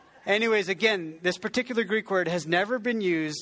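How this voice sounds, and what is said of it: Usual voice. Nothing is said of it.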